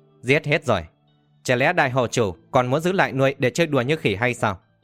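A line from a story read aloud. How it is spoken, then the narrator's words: Loud laughing. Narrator (Vietnamese): Tây Môn Triều Ngọ cười to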